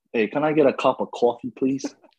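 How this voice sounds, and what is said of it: Put-on Boston American accent. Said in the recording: “Can you mimic a Boston or just American in general accent for us real quick? ... That's pretty good.”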